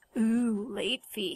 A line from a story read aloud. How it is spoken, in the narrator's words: Hansel mocked